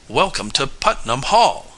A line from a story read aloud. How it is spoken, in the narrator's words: cried Major Bart Connors, a tall youth of nearly 17